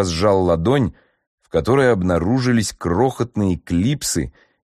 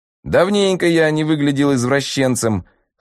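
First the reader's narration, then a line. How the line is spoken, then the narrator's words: Snorting. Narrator (Russian): хмыкнул Сикитунт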